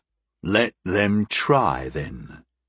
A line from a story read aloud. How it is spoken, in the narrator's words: the Jiberian growled